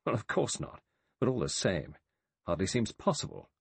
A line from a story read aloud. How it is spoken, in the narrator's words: Lombard said irritably